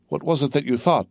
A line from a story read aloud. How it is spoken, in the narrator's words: asked the young man, anxiously